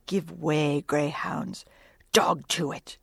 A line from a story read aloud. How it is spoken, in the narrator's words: in his old intense whisper